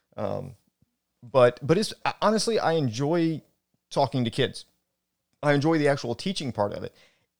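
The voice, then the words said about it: Worn-out, wrecked voice. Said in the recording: “My voice is a little on the wreck side.”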